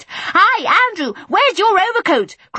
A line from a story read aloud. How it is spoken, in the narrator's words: cried Michael, trying to make a high, windy voice like Miss Lark's